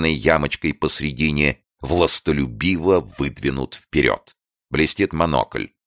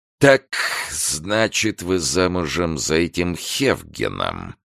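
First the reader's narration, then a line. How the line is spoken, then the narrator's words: Creaky voice. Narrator (Russian): говорит он скрипучим голосом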